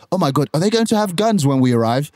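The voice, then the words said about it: Put-on English accent. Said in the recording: “I have to do my English accent”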